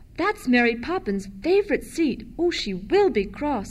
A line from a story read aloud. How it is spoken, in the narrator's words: exclaimed Michael